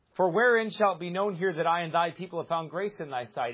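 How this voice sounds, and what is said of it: Loud yelling outside voice. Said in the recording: “I like yelling today, man. I thought I yelled enough last night ... I took out my inside voice and put on my outside voice.”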